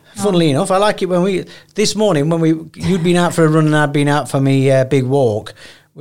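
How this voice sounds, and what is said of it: Northern English accent. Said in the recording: “So I've got a Northern accent.”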